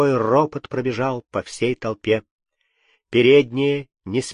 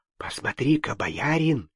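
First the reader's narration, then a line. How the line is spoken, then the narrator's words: Whispered. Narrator (Russian): шепнул Алексей Юрию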